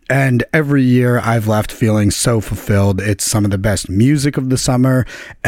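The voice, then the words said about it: Strained, worn-out voice. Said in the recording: “if you can tell from my voice, I had a ton of fun screaming at the top of my lungs all weekend”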